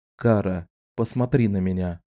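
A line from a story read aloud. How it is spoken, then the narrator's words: Gentle command. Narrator (Russian): мягко приказал Ричард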